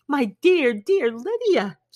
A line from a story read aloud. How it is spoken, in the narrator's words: she cried